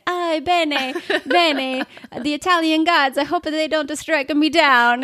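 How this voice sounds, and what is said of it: Put-on Italian accent, gruff man. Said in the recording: “trying to do this Italian accent. ... This big old burly Harley guy.”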